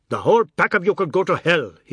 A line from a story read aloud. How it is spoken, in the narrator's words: he shouted